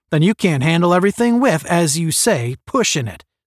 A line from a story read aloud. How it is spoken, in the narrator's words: snapped Strong